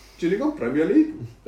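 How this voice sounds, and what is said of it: Bad attempt at a German accent. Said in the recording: “I just couldn't do a very good accent ... I don't know what accent that was. It was very bad. ... It wasn't a good one. ... It definitely wasn't German.”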